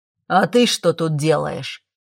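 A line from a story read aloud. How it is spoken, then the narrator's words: Rough deep bass. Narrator (Russian): Грубо пробасил старший из драконов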